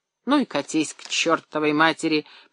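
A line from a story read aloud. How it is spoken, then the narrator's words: Drunken grumble. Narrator (Russian): пьяно проворчал Леонид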